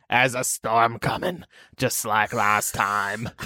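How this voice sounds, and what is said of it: Poor Hagrid character voice. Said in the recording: “That was a really bad Hagrid impression.”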